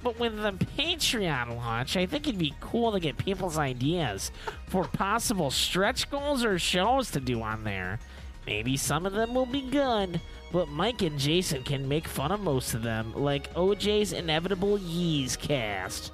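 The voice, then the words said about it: Imitates another person's voice. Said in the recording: “I'm going to do a Sean voice... That sounds nothing like him.”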